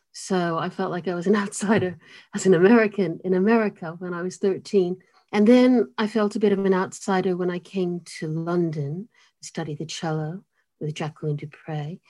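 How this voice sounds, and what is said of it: Mid-Atlantic blend of American and British accent. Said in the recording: “my accent's in the middle of the ocean ... you sound so British ... you sound so terribly American ... I get accused of being South African”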